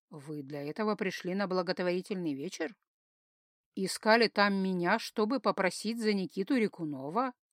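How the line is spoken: Seemingly even voice. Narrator (Russian): Вроде бы ровным голосом спросил он

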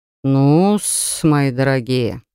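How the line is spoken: Drawled. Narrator (Russian): протянул Моран

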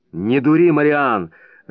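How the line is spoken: Irritated, curt. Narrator (Russian): раздраженно бросил Прескотт

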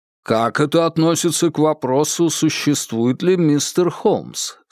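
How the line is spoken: Plain question. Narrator (Russian): спросил Хоуэллс

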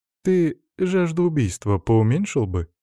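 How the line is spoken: Sarcastic remark. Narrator (Russian): саркастично подметил Салим

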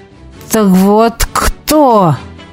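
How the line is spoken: Hissed. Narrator (Russian): прошипел он

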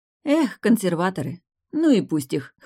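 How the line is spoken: Snorting. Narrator (Russian): хмыкнула Варвара

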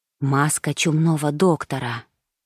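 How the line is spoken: Whisper. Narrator (Russian): прошептал Пауло

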